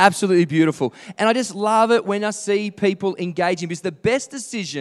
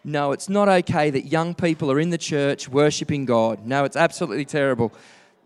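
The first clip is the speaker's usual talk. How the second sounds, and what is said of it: Sarcastic delivery. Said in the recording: “I'm being sarcastic.”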